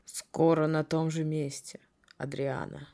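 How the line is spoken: Quiet. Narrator (Russian): тихо сказал он

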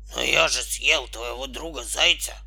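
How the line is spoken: Wolf's hoarse wheeze. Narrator (Russian): прохрипел волк

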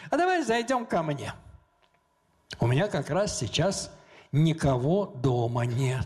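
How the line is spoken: Calm, friendly. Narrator (Russian): так спокойно, по-дружески сказала

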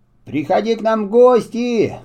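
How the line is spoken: Shout after someone. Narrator (Russian): крикнул ему мат вслед

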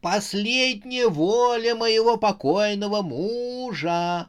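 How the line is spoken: Loud sobbing yelling. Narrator (Russian): орала на весь банк Харя, сотрясаясь в рыданиях

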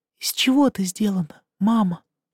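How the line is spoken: Very quiet kitten question. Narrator (Russian): Тихо-тихо спросил котенок

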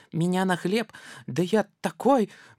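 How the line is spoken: Mouse squeak. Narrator (Russian): мышонок пропищал

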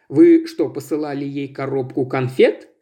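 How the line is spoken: Plain. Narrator (Russian): спросил он

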